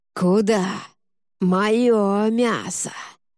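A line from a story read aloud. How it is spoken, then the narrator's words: Inhuman hiss. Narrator (Russian): Голос тоже изменился, становясь нечеловеческим шипением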